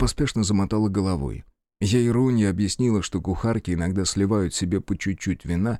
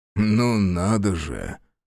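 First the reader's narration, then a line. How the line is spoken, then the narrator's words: Weak chuckle. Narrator (Russian): вяло хохотнул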